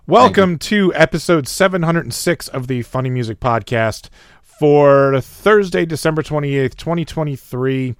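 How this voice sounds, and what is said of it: Sick, hoarse, losing voice. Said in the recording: “I'm getting sick, and I'm losing my voice, and I have a sore throat.”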